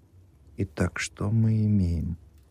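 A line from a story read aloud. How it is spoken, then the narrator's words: Whispered to himself. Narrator (Russian): зашептал он сам себе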